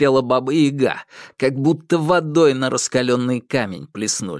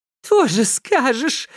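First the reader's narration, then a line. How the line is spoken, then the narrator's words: Whining. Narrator (Russian): заскулила кикимора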